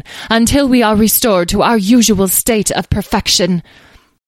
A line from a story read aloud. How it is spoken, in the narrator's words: interrupted one of the fairies in an imperious tone